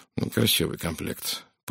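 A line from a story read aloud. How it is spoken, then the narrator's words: Absent mutter. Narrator (Russian): пробормотал он с отсутствующим видом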